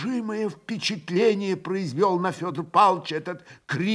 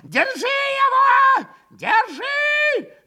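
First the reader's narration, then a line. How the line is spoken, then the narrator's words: Yell. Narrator (Russian): Завопил он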